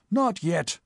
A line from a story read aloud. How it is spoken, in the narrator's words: snapped Sir Thomas